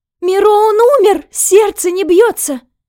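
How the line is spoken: Trembling panicked scream. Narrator (Russian): закричала Нюся, и всю ее охватила дрожь

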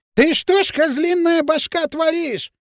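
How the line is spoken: Shrill shout. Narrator (Russian): визгливо закричал Дутов

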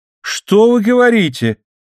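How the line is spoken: Shouted, suddenly interested. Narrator (Russian): крикнул Дон Диего, проявляя внезапный интерес

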